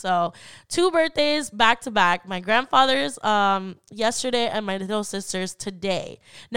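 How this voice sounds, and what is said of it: Weird voice from illness. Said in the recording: “my voice is all weird ... I wasn't feeling too good ... My allergies were all over the place”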